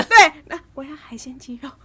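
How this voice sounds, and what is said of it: Very quiet, soft speech. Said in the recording (Chinese): “要很小声”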